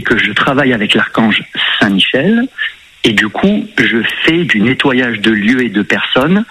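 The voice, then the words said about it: Sing-song southern French accent. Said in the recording (French): “on entend un peu votre accent chantant”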